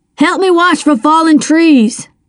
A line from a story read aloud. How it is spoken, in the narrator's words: he bellowed